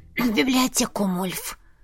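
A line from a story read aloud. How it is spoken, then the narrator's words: Creaky, breathless. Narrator (Russian): Проскрипела, пытаясь отдышаться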